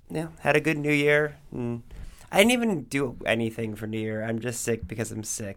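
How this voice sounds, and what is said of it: Rough, gravelly sick-sounding voice. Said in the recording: “I'm a little under the weather right now, so this isn't a bad Tom Waits impression. It is a bad Tom Waits impression, but it's not on purpose.”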